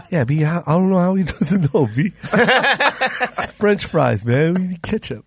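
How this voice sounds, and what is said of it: Imitates another person's voice. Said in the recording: “worst Ian Edwards impersonation”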